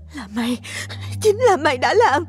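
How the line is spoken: Panting speech. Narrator (Vietnamese): Nó vừa thở dốc vừa nói

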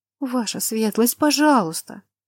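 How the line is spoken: Pleading. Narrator (Russian): Лана обратилась ко мне умоляющим голосом

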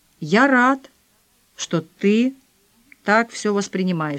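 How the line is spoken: Plain. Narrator (Russian): сказал он

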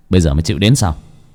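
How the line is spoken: Smiling. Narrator (Vietnamese): Bác cổ mỉm cười

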